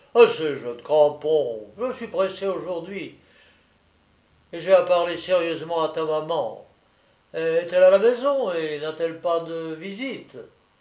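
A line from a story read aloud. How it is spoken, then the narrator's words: Gruffly affectionate. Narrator (French): lui dit d'un ton affectueusement bourru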